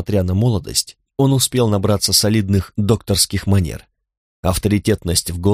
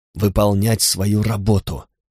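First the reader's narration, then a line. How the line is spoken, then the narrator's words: Hissing. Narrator (Russian): прошипел он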